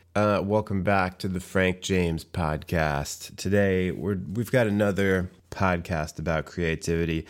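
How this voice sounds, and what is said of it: Late-night FM DJ voice. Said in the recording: “putting on my late night FM DJ voice”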